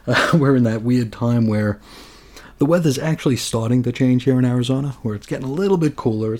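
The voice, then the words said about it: Slightly raspy, hoarse voice. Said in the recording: “I am dealing with some major allergies today ... I sound a little raspy or a little hoarse ... wreak havoc with my sinuses and my nasal passages”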